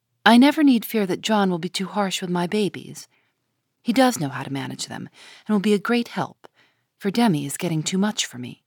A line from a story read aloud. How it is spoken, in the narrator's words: Meg smiled to herself, saying in a satisfied tone